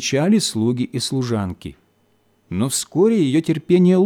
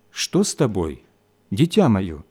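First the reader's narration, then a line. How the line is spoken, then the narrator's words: Calm question. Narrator (Russian): спросил отец спокойно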